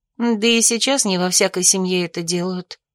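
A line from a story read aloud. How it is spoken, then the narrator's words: Mutter. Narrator (Russian): пробормотала я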